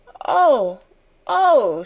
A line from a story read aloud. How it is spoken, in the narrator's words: she cried woefully